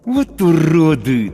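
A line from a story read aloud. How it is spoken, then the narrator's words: Through gritted teeth. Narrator (Russian): цежу сквозь зубы я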